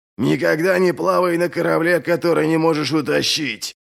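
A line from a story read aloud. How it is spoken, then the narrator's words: Growled through clenched teeth. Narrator (Russian): прорычал Ральф сквозь сжатые зубы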